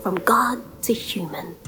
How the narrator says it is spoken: she whispered

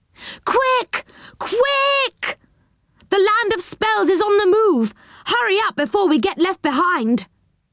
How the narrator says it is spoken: Moonface began to shout

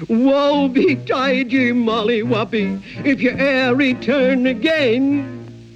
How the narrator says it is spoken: he cried out after her in a dreadful voice across the chasm

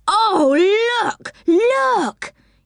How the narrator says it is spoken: yelled Franny with excitement

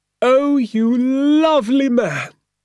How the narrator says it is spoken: cried Mrs

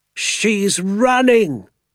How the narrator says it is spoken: Doc Spencer cried

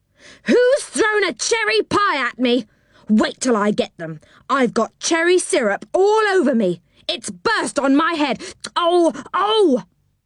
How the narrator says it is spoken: there came an angry shout from lower down still

